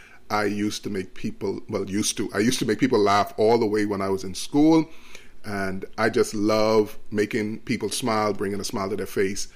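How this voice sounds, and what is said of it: Bahamian accent. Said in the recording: “I was born in the beautiful islands of the Bahamas ... if you hear my accent”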